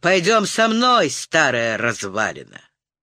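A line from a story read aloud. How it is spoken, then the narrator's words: Growled. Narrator (Russian): один из слуг прорычал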